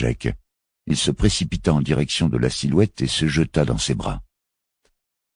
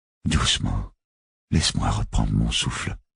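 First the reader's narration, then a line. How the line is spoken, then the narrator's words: Murmured. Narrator (French): murmura Charlie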